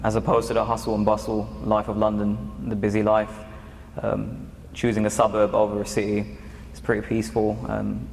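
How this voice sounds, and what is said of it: British accent. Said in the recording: “You still got that nice British accent.”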